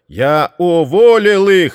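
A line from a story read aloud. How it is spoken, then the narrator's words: Robot shouting. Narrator (Russian): закричал робот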